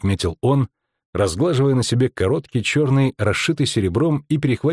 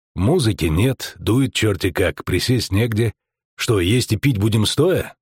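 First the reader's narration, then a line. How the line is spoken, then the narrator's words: Unexpectedly calm. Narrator (Russian): сказала неожиданно спокойно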